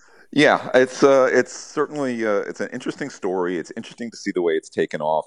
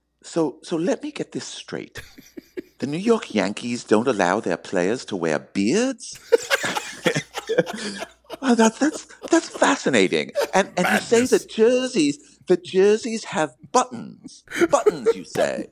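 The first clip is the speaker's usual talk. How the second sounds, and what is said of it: Put-on British accent. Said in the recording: “he's a British guy ... he's saying to me in this British accent”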